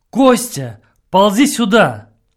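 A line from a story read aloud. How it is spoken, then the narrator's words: Shouted. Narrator (Russian): я крикнул ему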